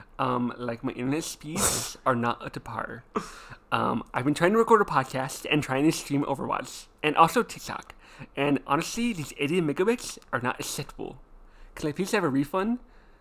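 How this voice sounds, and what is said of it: Nerdy character voice. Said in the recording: “Total nerd voice.”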